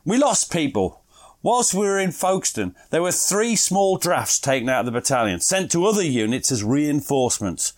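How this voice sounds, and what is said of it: Put-on East Finchley accent. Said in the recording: “you will be doing an East Finchley accent ... This is my best East Finchley accent.”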